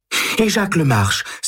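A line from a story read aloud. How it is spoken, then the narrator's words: Sudden exclamation. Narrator (French): s'écrie-t-elle tout à coup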